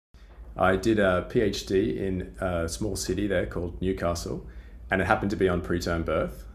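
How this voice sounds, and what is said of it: Australian accent, sounds somewhat British. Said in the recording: “As you can probably already tell from my accent, I'm originally from Australia ... I think you sound very British.”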